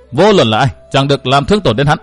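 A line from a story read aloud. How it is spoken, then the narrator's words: Raised voice. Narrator (Vietnamese): một bóng người cao giọng thốt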